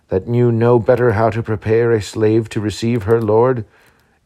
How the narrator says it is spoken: cried he

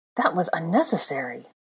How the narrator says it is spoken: gasped

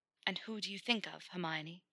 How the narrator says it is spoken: Potter asked, in barely more than a whisper himself

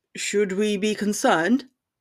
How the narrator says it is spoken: her father asked

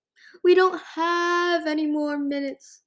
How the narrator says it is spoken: Splendor sobbed

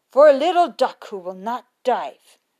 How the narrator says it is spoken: he said sternly

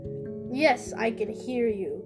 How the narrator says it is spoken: the woman said sternly

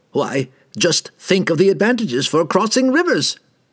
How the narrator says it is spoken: the robed man cried

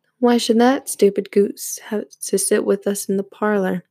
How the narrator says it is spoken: they said

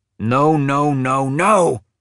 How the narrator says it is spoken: he screamed now, because he was like me

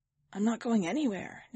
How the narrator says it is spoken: Nanny Julia said, her voice conspiratorial

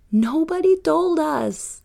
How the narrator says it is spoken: Bruno would shout

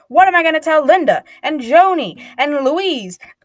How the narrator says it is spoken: Grandma yells

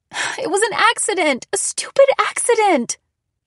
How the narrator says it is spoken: I cried

